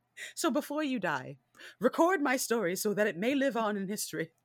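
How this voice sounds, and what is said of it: Character voice with a different accent. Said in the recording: “the totally accent different. you gave him.”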